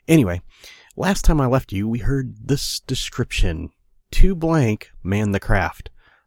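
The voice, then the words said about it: Hoarse, raspy voice. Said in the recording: “I'm a little under the weather this week, so please forgive my voice if it sounds like I've been smoking a pack a day here for a month.”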